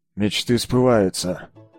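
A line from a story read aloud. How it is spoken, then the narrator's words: Grumbling officer. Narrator (Russian): проворчал унтер-офицер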